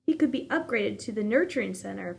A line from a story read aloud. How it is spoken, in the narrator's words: Father said happily